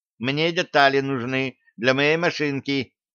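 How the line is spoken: Squeaked. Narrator (Russian): пискнул ученый

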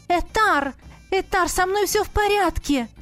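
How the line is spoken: Shouted. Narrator (Russian): крикнула я

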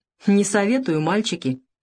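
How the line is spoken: Warning snort. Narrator (Russian): предупреждающе хмыкнул Савелий

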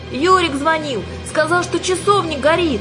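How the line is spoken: Shouted over shoulder running. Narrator (Russian): крикнула, обернувшись на бегу, Юлька

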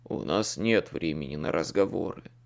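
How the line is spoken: Gruff mutter. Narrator (Russian): буркнул Слейд

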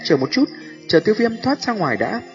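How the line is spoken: Low stern snap. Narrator (Vietnamese): Tô Thiên mặt trầm quát khẽ

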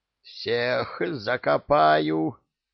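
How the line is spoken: Hoarse rasp. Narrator (Russian): прохрипел он

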